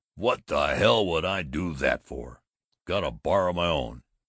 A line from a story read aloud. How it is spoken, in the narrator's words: the ferocious colonel bellowed